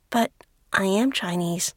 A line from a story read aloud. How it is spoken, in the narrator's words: Lily stammers